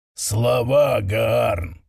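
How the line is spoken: Growled reply, elder. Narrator (Russian): прорычал в ответ старший из Пепельных Волн

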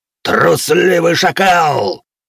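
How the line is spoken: Roared. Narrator (Russian): проревел Ргон, не дождавшись ответа

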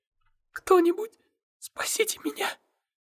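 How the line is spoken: Breaking whisper. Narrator (Russian): ее срывающийся шепот

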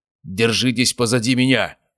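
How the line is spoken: Barked command. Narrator (Russian): рявкнул он группе охотников

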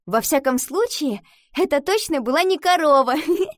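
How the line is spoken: Reply, then laughter. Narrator (Russian): ответила и рассмеялась

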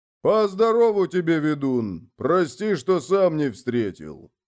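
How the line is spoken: Booming, older man. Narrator (Russian): прогудел старший

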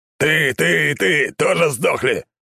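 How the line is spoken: Spitting bellow, big man. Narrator (Russian): брызгая слюной, гаркнул загорелый здоровяк

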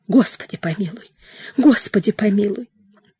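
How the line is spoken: Frightened whisper. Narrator (Russian): зашептал испуганно

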